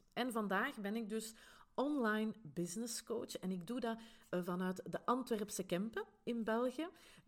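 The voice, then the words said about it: Flemish Brabant accent. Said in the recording (Dutch): “je zal het misschien horen aan mijn accent ... mijn Vlaams-Brabants accent”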